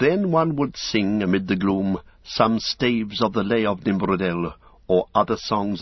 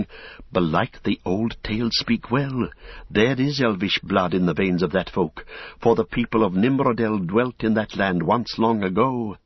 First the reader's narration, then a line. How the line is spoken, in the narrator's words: Men that saw them whispered, saying